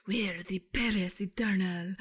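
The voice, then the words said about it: Put-on French accent. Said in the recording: “that's my French accent, by the way.”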